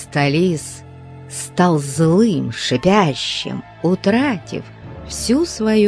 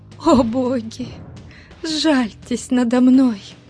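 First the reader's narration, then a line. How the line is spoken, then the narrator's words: Sobbing, breaking fearful voice. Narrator (Russian): Всхлипывала Натала, и ее голос ломался от страшного предчувствия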